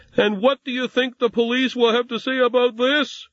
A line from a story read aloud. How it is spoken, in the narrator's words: she yelled, as if she knew someone was out there